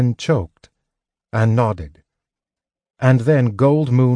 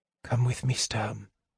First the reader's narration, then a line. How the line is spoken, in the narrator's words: Gold Moon whispered